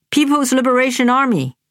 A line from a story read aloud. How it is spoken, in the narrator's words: Aunt Rain exclaimed